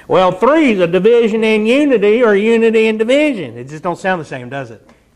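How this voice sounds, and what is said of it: Southern drawl. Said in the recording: “if I had an Indian accent like Ravi Zacharias, you'd all be going, ooh, deep. But I got this southern drawl”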